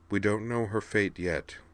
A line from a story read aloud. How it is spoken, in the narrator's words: said Sky gently